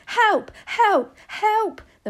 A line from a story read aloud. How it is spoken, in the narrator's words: the man was screaming